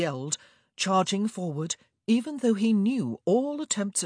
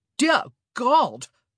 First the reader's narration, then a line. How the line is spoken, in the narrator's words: Burbrook exclaimed